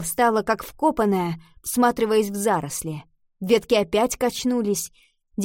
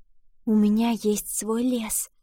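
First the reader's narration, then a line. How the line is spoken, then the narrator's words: Whisper. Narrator (Russian): прошептала она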